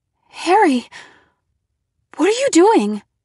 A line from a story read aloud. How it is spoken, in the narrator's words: I cried